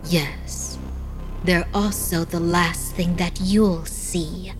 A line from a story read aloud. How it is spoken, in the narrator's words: in a soft voice, she replied